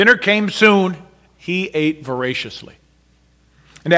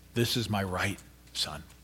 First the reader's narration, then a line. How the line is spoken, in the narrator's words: she whispered softly